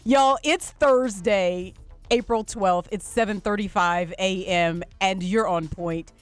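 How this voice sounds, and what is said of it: Gleeful, excited voice. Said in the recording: “hear the glee in my voice, it is because it's there, and I can hardly contain myself”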